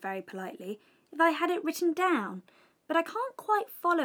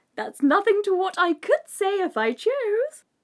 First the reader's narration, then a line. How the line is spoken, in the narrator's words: the Duchess replied in a pleased tone